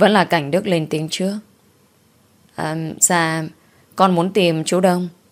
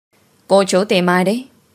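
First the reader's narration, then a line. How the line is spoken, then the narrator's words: Raised voice question. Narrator (Vietnamese): Ông ấy cao giọng rồi hỏi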